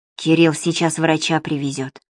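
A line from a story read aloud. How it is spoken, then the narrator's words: Whispered in ear. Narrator (Russian): шепотом сказала Нине на ухо Валентина Яковлевна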